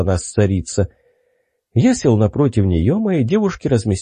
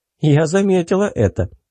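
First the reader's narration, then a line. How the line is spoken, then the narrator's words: Cheerful smirk. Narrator (Russian): весело усмехнулась Мурка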